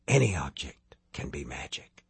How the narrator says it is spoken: the Covenant Man whispered

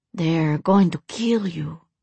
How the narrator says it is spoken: Juanita breathed

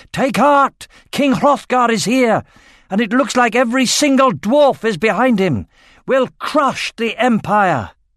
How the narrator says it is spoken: Ecstatic with relief, Eragon shouted

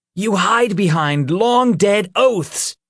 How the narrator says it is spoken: Peter shouted from atop the ledge

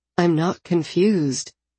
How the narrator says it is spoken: I said calmly

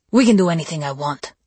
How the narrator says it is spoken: he snapped

